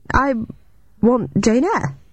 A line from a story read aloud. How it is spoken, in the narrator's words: he stammered